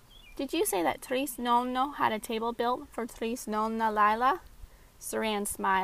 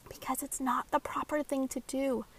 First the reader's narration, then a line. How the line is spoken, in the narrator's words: Kylie whispered